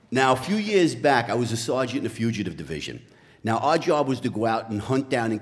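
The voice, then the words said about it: Genuine New York accent. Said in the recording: “a former New York City cop ... his accent is for real”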